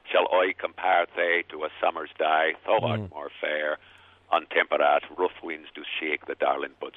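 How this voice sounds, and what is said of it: Old English accent, Irish or Dorset-like. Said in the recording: “as he would have said it ... sounds a little Irish, sounds a little Dorset.”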